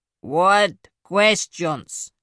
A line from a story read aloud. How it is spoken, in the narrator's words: It growled, the sound vibrating through her